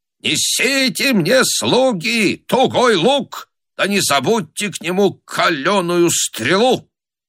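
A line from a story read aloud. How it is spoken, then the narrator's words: Booming shout. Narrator (Russian): закричал зычным голосом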